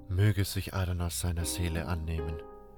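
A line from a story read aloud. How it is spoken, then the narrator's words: Murmur. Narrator (German): hörte ich Medarion murmeln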